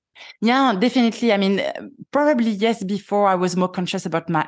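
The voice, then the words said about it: Strong French accent. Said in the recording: “I have a French accent. I know it. It's strong.”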